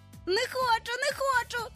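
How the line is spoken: Shrieking. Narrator (Ukrainian): верещав Майкл

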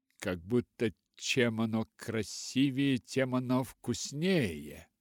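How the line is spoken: Mocking. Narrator (Russian): насмешливо сказала она

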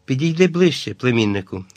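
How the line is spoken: Gentle. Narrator (Ukrainian): лагідно почав

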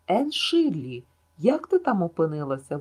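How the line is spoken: Exclaimed. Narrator (Ukrainian): вигукнув Гілберт

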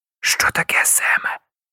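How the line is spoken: Whisper. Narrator (Ukrainian): прошепотів Ян

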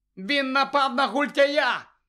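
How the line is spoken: Shouting. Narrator (Ukrainian): крикнув Гаррі

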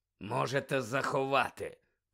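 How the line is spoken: Growling. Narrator (Ukrainian): прогарчав він

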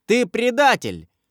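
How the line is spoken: Shouting. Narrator (Russian): закричал он

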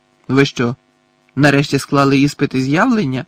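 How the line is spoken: Angry grumble. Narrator (Ukrainian): сердито буркнув Гаррі

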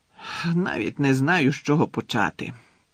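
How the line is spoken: Muttered. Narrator (Ukrainian): пробурмотів Фадж

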